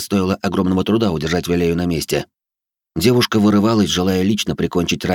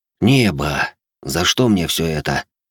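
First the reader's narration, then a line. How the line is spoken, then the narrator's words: Furious growling, beast. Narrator (Russian): рычал, яростно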